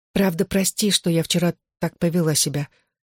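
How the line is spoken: Awkward whisper. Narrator (Russian): прошептала я, заставив себя вернуться к неловкой теме

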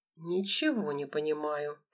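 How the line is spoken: Puzzled mutter. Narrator (Russian): пробормотал Анатолий

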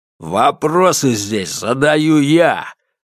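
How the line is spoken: Menacing growl. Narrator (Russian): рыкнул громила

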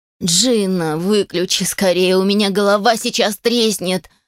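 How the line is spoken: Whining. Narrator (Russian): захныкал Мэтт

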